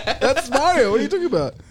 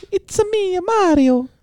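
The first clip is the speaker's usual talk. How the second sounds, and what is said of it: High-pitched stereotypical Italian Mario voice. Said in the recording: “stereotypical Italian accent ... we're supposed to have high voices”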